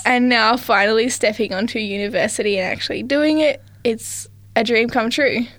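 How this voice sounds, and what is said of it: Mixed New Zealand accent. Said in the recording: “you've got a bit of a mixed accent there ... if you've heard an accent, I am from New Zealand, so I'm a full Kiwi.”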